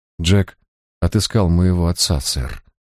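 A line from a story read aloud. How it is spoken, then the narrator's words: Sigh. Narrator (Russian): вздохнула Тамазин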